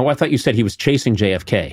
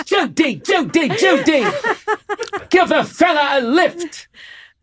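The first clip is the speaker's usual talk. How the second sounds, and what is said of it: Cary Grant impression. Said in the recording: “Cary Grant ... Pretty good impression, huh?”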